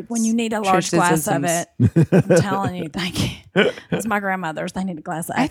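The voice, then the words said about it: Southern US accent. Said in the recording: “your sweet Southern accent”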